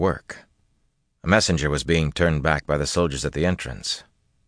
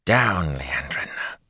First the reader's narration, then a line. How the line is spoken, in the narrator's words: she hissed almost under her breath